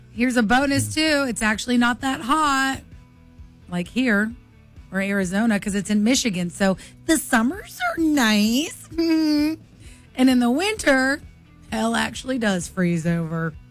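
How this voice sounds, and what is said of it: Northern US Midwestern accent. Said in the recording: “I like your northern accent... that's what everybody in Michigan sounds like... you sound like our coworker... She's just from the Chicago area... She's got that sound.”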